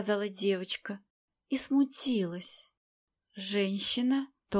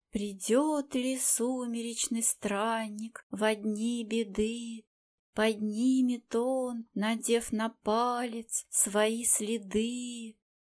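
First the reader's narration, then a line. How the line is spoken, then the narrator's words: Girl's sing-song recitation. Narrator (Russian): Девочка нахмурила бровки и, нараспев, произнесла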